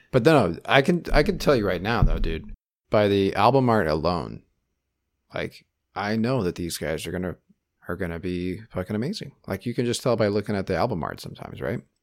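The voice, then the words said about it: Very excited, energetic voice. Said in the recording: “I can't even contain my excitement anymore, if you can tell by my voice. ... I'm so excited right now.”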